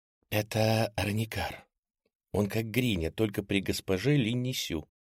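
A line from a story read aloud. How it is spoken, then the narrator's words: Girl whispering in ear. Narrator (Russian): прошептала девушка на ухо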